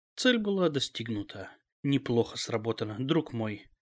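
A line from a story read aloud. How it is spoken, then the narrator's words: Whispered. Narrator (Russian): прошептал Пепе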